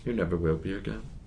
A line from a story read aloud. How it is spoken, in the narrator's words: adds quietly